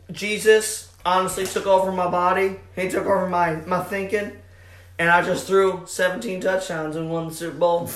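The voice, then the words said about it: Put-on Southern accent. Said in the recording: “Southern accent ... Thinks that Russell Wilson is a Southern man ... Is that a Southern accent or a Chesterfield accent?”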